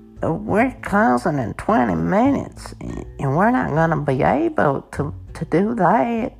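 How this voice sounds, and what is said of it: Put-on Southern US accent. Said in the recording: “Are you mocking her southern accent?”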